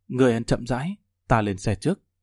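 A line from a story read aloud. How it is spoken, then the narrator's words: Gentle. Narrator (Vietnamese): nhẹ nhàng nói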